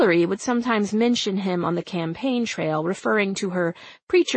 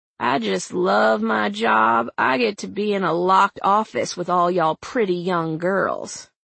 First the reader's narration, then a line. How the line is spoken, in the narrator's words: said in his southern drawl